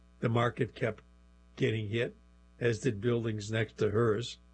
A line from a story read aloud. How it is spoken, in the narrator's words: she said in a monotone